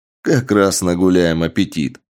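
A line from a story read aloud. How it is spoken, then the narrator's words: Laughing reply. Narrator (Russian): рассмеявшись, ответил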